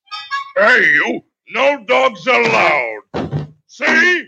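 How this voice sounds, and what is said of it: Ridiculous Pete cartoon character voice. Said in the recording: “Walt just did that voice one day ... it is a ridiculous voice”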